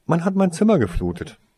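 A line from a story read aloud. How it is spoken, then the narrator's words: Calm explanation. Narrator (German): erklärte Toriesa ruhig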